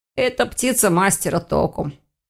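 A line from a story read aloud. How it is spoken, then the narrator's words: Hoarse. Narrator (Russian): сипло отозвался Ирс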